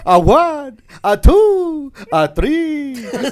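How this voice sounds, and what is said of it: Count Dracula impression. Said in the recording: “I could do Count Dracula ... a good impression of Count Dracula”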